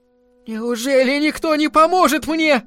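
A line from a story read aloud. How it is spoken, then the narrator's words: Shouting. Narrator (Russian): закричала она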